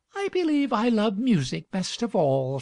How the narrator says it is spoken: said the girl dreamily

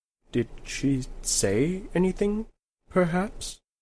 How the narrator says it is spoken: he said in a small voice

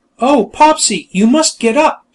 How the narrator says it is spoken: she cried

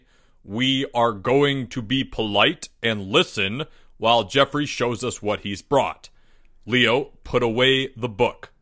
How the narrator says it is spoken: L sternly

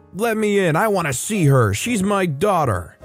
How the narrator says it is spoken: screaming

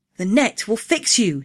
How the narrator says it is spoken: he cried

